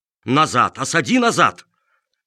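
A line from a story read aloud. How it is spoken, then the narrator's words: Old man's exasperated shout. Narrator (Russian): бедный старик Чиполлоне не выдержал и закричал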